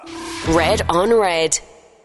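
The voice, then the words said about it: Professional announcer voice. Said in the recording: “That's my announcer voice from the old station. ... You have got a pro announcer's voice. You should be doing adverts for the cinema”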